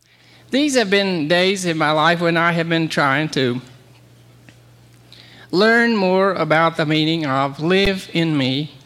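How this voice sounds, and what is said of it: Mumbling southern American accent. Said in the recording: “he mumbled in a southern accent”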